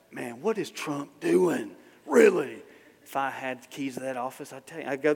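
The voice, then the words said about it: Put-on accent. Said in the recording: “there goes the accent again”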